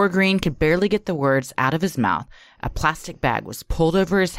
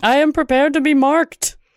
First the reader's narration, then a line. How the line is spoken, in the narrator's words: The girl instructed Green to yell